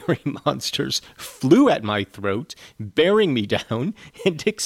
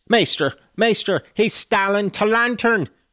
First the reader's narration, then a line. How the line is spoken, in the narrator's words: shouted the ancient, pursuing my retreat